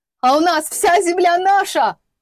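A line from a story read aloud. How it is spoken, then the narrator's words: Sudden high-pitched yell. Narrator (Russian): заорал вдруг Голубев, странно тонким для его сложения голосом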